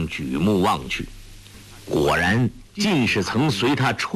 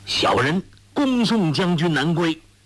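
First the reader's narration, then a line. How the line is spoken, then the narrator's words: Soldiers calling in unison. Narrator (Chinese): 众军一齐下马拜伏在地，叫道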